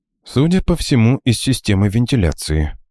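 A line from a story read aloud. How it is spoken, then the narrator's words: Calm reply. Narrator (Russian): спокойно ответил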